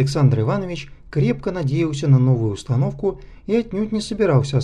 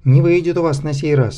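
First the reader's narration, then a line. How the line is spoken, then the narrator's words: Angry huffing. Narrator (Russian): сердито сопел он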